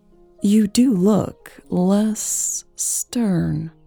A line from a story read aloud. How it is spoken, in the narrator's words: Eleanor said slowly, her voice light and playful